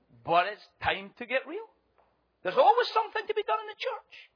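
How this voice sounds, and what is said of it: Scottish accent. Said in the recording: “with my Scottish accent”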